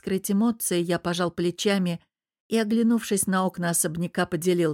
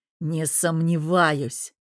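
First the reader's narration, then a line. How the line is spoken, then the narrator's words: Growled. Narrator (Russian): прорычал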